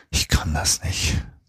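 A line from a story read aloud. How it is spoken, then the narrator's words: Whispered. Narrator (German): flüsterte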